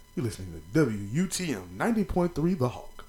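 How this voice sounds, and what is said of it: Exaggerated radio announcer voice. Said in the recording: “Y'all like that radio voice? ... they used to want me to talk like that on the radio in college. Like, you need to speak like this.”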